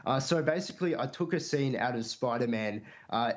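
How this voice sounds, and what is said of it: Usual voice. Nothing is said of it.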